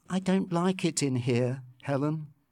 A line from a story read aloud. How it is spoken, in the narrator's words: she said quietly